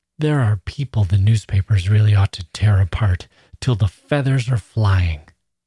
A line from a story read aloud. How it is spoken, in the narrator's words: He frowned contemptuously and gasped out